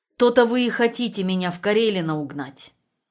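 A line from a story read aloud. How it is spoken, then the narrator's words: Angry question. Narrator (Russian): зло спросила Тамара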